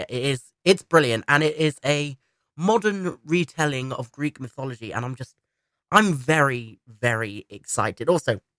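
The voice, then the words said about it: Congested voice, stuffy nose. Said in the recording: “excuse if I sound like I've got a cold. That's because I do... my nose is not handling it at all”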